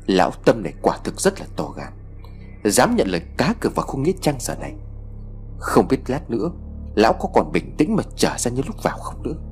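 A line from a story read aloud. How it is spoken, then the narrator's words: Soft hissing whisper. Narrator (Vietnamese): Cậu khe khẽ xì vào tay của Siêu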